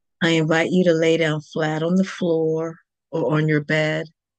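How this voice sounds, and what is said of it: Lower, slower calm voice. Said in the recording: “lower my voice just a bit ... start talking a little bit slower”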